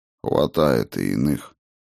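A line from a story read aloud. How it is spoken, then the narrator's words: Sighing. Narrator (Russian): вздохнул Хедин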